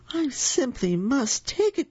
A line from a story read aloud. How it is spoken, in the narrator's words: cried the very old man